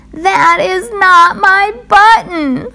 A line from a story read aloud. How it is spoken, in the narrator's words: wailed Toad